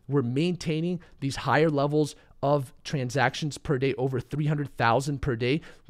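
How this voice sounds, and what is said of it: Voice fading, sounds unwell. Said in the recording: “I am starting to lose my voice. ... I'm still a little bit under the weather”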